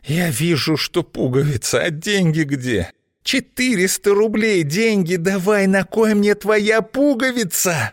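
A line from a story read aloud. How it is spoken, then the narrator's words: Indignant hoarse wheeze. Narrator (Russian): Возмущенно захрипела Злата, закипая от негодования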